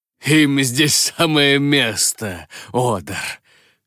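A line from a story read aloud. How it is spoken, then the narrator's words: Chuckle. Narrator (Russian): хохотнул Ахимот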